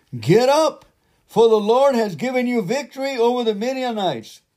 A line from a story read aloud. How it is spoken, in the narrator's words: shouted